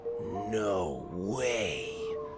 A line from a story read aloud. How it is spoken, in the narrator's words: Sawyer breathed